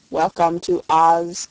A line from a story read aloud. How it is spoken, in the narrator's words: said the copper man in a monotonous voice